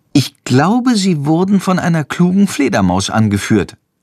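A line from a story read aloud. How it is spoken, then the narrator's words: Plain. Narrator (German): antwortet Jendrik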